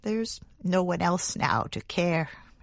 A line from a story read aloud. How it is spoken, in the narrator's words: she sighed